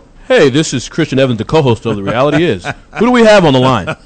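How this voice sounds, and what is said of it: Put-on radio announcer voice. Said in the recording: “That was my radio voice.”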